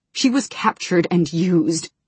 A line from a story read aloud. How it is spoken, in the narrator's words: Kallik said, his voice harsh with self-loathing